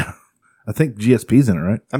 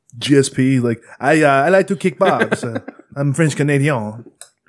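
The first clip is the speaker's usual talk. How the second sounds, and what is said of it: Attempted French-Canadian accent. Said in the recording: “I don't know how to do a French accent. I'll work on it. ... It's pretty good”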